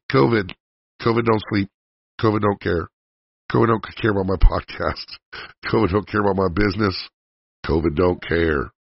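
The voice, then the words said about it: Voice affected by illness. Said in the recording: “apologize for my voice”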